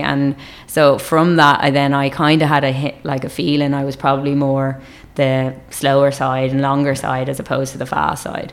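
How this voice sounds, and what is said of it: Irish accent. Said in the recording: “I'm sure everyone can tell your Irish accent”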